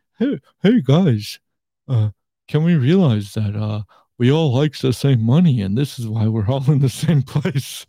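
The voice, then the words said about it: Flat monotone imitation. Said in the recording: “This is my monotone.”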